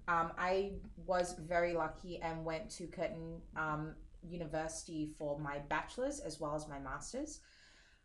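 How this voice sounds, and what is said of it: Accent not typical of Singapore. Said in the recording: “I am Singaporean. Don't let the accent fool you.”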